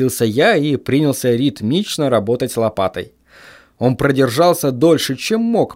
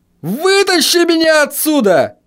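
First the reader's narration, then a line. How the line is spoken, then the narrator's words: Screaming. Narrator (Russian): завопил он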